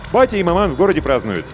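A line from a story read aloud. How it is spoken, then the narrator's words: Joyful. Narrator (Russian): радостно сообщил Емельян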